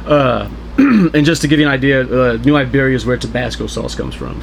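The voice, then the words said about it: Slight Louisiana accent. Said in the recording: “he's got a little bit of an accent. He's not from here ... beer kind of brings out the accent, and that's why it gets thicker as the podcast goes on. I was born and raised in New Iberia, Louisiana”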